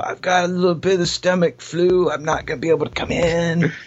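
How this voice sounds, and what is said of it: Stoner-sounding impression voice. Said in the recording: “Why does your impression of Wayne sound like a stoner?”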